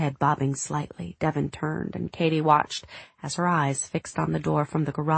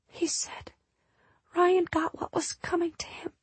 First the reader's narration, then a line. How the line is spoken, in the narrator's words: Devin whispered